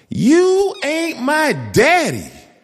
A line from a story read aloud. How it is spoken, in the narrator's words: she screamed